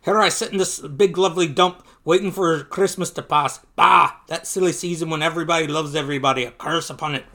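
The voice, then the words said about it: Deliberately bad Scottish accent. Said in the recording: “Is that Scottish? I don't know. ... I'm going to do a really bad accent.”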